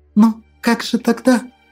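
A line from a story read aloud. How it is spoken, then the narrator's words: Near-tears whisper. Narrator (Russian): Едва не плача, прошептала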